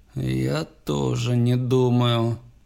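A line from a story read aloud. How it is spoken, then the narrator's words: Slow, through gritted teeth. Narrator (Russian): медленно процедил Барлоу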